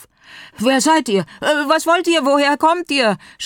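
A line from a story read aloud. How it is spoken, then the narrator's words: Overlapping shouts. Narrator (German): schrien durcheinander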